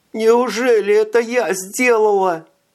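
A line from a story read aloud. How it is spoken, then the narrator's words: Sobbing. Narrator (Russian): рыдала Элька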